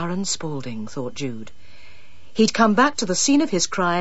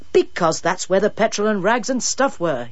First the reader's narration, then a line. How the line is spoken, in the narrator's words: he snapped